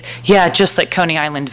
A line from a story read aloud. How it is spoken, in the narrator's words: Val says